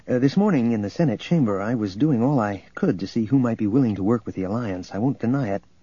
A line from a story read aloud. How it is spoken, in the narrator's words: he went on quickly